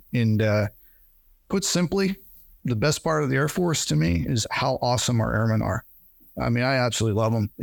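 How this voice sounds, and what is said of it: Tearful, emotional voice. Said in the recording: “I'm getting a little teary eyed just thinking about them”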